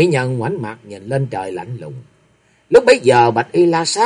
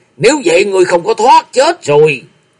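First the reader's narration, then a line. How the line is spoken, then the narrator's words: Furious. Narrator (Vietnamese): Tam Miêu Chi Thần hầm hầm tức giận nói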